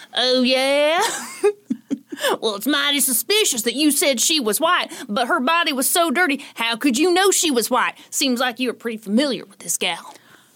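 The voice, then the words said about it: Put-on Southern American accent. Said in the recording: “let me do my southern accent.”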